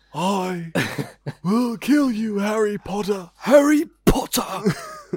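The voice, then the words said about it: Loud, shouted posh villain voice. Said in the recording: “he's really posh as Voldemort as well ... You listen to this with headphones ... putting emphasis on the...”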